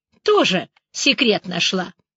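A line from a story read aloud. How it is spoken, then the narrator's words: Smirking snort. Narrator (Russian): хмыкнула Вика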